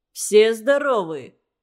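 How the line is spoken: Booming rough, decisive bass. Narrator (Russian): гремел Кузьмин своим грубоватым, решительным басом

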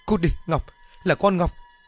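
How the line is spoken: Terrified loud scream. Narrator (Vietnamese): Sợ hãi quá, bà Mão thét lớn

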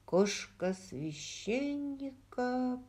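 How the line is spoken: Muttered. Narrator (Russian): пробормотал Роджер

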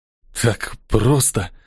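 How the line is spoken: Mutter. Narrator (Russian): пробормотал он

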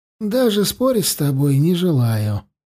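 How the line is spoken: Tired. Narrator (Russian): устало бросил Тулум

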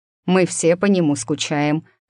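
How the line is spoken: Wry snort. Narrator (Russian): хмыкнул Адам

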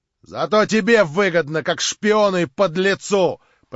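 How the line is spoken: Shouted. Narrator (Russian): прокричал ему в дверях Шатов

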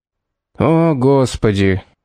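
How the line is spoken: Weary sigh. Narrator (Russian): устало вздохнул Мортимер

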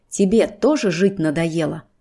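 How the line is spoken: Through gritted teeth. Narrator (Russian): Добавляет он сквозь зубы

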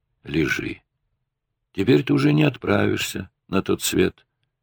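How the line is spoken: Quiet, medic speaking. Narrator (Russian): негромко сказал фельдшер

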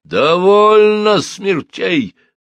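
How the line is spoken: Shouting. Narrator (Russian): заорал Сюркуф

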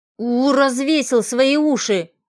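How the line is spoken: Displeased grumble. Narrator (Russian): недовольно проворчала Варя

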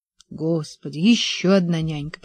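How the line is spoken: Muttered. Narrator (Russian): пробормотал я

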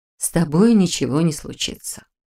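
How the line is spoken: Gentle reassurance. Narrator (Russian): мягко заверила она

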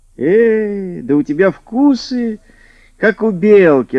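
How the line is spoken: Laughing old man. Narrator (Russian): рассмеялся дед

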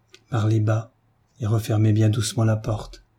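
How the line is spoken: Half-voiced, low. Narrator (French): lui dit Marie à mi-voix

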